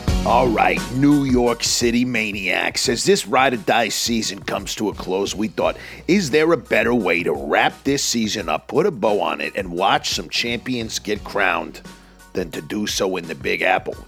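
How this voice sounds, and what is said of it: Put-on accent. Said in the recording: “why are you talking like that? ... I'll screw the accent”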